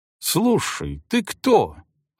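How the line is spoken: Exclamation. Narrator (Russian): воскликнул обжигальщик

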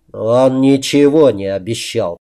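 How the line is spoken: Gritted-teeth mutter, former captain. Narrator (Russian): сквозь зубы процедил бывший капитан

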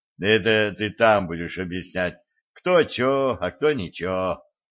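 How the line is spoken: Colonel's snort. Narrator (Russian): хмыкнул полковник

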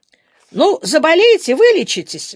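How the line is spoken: Exclaiming. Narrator (Russian): воскликнула она

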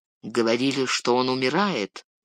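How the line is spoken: Warrior muttering. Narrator (Russian): пробормотал воин

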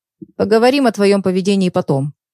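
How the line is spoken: Stern. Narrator (Russian): строго произнес доктор

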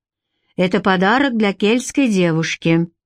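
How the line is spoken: Gloomy grumbling chief. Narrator (Russian): мрачно проворчал вождь

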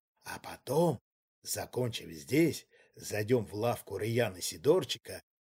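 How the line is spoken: Whispering to a dog. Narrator (Russian): обращаясь к собаке, прошептал Ковальский

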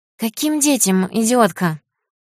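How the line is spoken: Squeaking boss. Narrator (Russian): пищал бугор

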